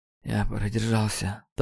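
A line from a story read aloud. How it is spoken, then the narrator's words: Strained, forced out. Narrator (Russian): только и смог выдавить Нейт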